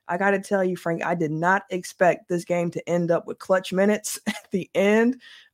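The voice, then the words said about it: Hoarse, congested voice. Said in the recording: “excuse my voice, I'm getting over a cold”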